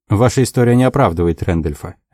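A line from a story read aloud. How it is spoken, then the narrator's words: Sharp. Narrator (Russian): резко сказал Дик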